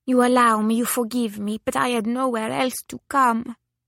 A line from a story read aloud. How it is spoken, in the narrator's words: said swiftly in a ripple of speech with an Italian accent